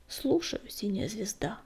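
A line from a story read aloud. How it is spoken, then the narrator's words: Quiet reply. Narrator (Russian): тихо отозвался он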